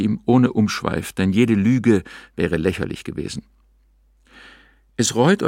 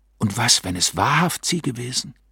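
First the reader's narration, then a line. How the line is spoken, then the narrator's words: Horrified, shuddering whisper. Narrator (German): flüsterte nicht mit Sehnen und Trauer, sondern mit tiefstem und bleichstem Schauder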